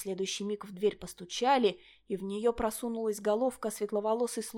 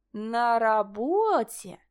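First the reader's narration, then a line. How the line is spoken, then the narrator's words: Mysterious drawl. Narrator (Russian): протянула Линель загадочным тоном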